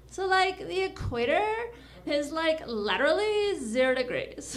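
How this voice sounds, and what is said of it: Valley girl voice. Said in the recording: “my impression of a valley girl that's into geography... valley girl into geography”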